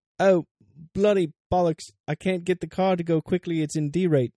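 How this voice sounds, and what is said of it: Put-on accent. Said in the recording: “That didn't sound anything like Lewis ... I won't worry about my accent.”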